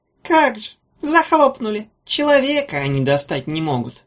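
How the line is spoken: Toothless mumbling small voice. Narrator (Russian): прошамкал чей-то голосок

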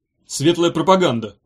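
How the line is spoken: Grumbling. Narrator (Russian): проворчал Чемоданов

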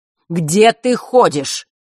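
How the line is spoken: Astonished exclamation. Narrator (Russian): изумленно выкрикнул

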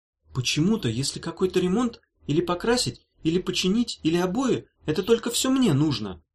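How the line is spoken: Displeased exclamation. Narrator (Russian): недовольно воскликнула Дафна

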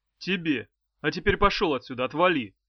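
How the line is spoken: Barking. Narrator (Russian): рявкнул экземпляр

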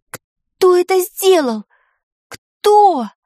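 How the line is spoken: Moaning. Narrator (Russian): простонала Таня

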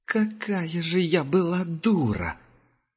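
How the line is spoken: Said through gritted teeth. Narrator (Russian): процедила Герда

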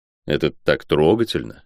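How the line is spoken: Muttered. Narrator (Russian): пробормотал я

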